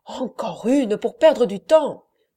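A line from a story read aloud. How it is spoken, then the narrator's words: Exclaimed. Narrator (French): s'écria Perpétua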